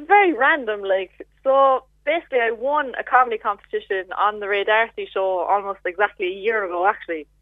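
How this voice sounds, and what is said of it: Cork Irish accent. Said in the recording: “you were from Cork with the accent”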